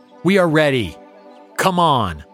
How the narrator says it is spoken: Frustrated, the Major yells at his foe

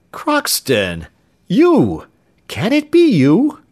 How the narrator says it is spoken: exclaimed Mr

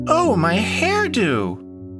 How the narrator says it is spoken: cried out Vinny

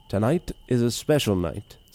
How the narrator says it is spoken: said the master

